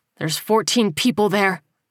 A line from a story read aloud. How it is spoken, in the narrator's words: Miles growled